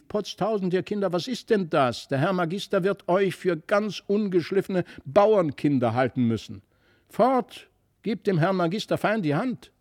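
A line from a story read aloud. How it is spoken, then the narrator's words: Angry call. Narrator (German): wurde die Frau von Brakel böse und rief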